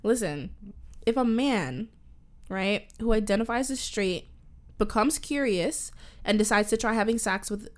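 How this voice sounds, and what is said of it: Canadian accent. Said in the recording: “My Canadian accent.”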